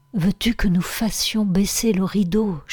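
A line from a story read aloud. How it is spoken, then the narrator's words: Whisper. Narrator (French): chuchota Barbara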